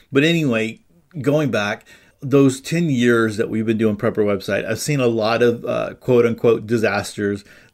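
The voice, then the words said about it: Stuffy, congested voice. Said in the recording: “I'm dealing with a little stuffiness here. And so I'm sure you can hear it in my voice. ... I always feel like I'm stopped up, but even more so today.”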